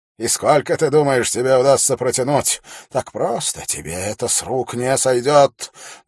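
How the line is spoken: Angry but restrained. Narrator (Russian): несмотря на всю свою злость, Феррис старается не говорить слишком громко

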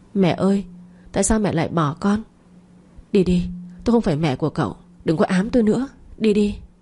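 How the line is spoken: Child crying. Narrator (Vietnamese): khóc lóc nói

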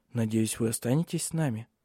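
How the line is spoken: Quiet question. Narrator (Russian): негромко спросила Силия

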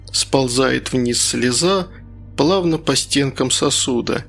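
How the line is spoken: Soft singing. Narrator (Russian): негромко запела Инга

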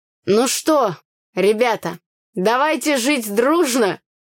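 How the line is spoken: Happy shout. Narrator (Russian): выкрикнул нам счастливый Митька

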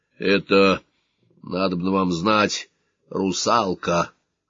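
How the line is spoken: Hoarse. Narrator (Russian): хрипло сказал капитан Зо

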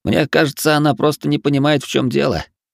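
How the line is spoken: Scoffing snort. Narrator (Russian): хмыкнул Хироши

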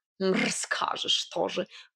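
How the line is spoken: Scoffing snort. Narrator (Russian): фыркнул Варфоломей

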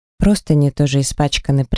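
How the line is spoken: Quiet, hoarse voice. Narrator (Russian): произнесла тихим и сиплым голосом

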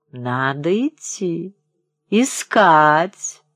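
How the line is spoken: Slurred old man, hiccuping. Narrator (Russian): заговорил старичок путающимся языком, громко икая

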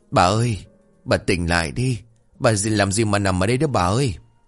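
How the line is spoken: Desperate repeated calling. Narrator (Vietnamese): Ông Tư miệng không ngớt gọi

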